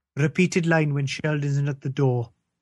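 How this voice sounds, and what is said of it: Put-on Welsh accent. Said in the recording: “I'm going to do the stage directions in a Welsh accent just to differentiate the two”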